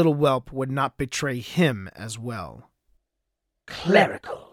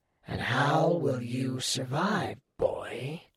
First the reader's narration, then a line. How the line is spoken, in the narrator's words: Arthur hissed